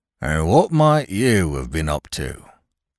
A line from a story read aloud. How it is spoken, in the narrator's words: he inquired coldly